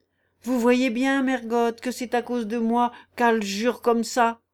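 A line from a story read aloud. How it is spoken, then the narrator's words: Hollow, mournful, hateful man. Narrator (French): dit d'une voix creuse et lugubre, et avec un regard haineux, l'homme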